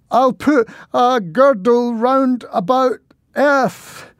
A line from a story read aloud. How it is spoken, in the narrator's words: he spluttered as suddenly the duck attacked